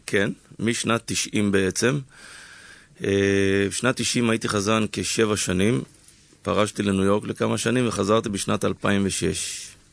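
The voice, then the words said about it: Slightly hoarse voice. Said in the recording (Hebrew): “אתה כבר צרוד קצת”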